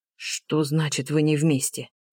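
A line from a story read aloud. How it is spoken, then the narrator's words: Hoarse wheezing reply. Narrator (Russian): просипел тот в ответ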